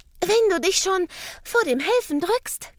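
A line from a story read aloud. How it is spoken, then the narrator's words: Panting. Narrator (German): keucht sie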